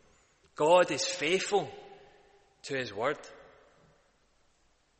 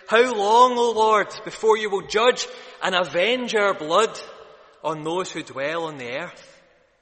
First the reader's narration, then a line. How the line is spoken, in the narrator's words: pleading with God